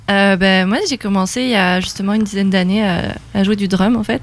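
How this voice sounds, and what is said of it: French-from-France accent. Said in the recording (French): “accent un peu euh, français ... tu viens de la France? ... Tu à trahi, un accent.”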